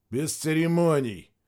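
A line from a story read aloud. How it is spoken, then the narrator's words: Grumbling. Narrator (Russian): проворчал Савельев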